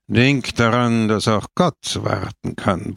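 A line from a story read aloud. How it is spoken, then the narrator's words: Grumbling. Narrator (German): brummte Don Camillo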